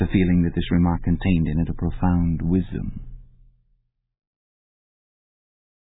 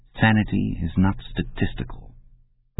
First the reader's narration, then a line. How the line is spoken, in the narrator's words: He fell asleep murmuring